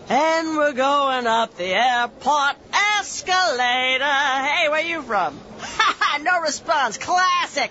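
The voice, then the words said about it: Traveling lounge singer character voice. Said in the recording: “my impression of a traveling lounge singer”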